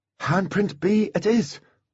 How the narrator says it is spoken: thought happily

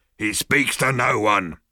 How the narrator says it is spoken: bellowed the bodyguard

